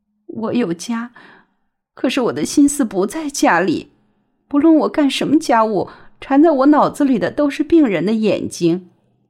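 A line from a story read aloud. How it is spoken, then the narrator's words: Trembling voice. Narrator (Chinese): 陆文婷声音颤抖着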